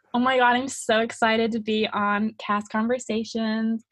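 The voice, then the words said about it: Put-on American accent. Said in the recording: “are you able to do like an American accent? ... That's so good.”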